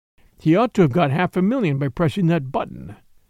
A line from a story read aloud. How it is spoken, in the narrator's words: continued the little father, in the colorless voice in which he talked of such horrors